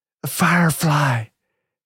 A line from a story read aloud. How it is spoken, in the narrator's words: exclaimed